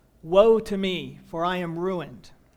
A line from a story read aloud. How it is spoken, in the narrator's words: Even Isaiah, the greatest man of God living at that time, cried out